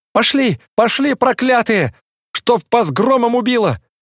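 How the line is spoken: Hoarse, choking angry shout. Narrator (Russian): кричал он, хрипя и как-то захлебываясь от злости

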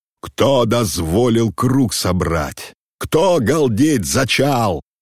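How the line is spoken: Menacing thunderous shout. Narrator (Russian): Грозно прогремел его окрик

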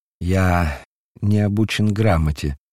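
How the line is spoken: Sad reply. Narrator (Russian): ответил Петр грустно

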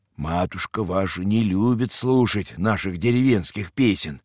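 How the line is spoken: Whispered in ear. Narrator (Russian): Она наклонилась и шепнула мне на ухо

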